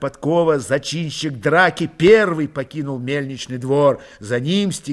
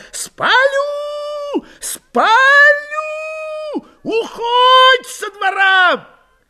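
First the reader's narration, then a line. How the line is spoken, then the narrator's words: Shouting. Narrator (Russian): тавричанин кричал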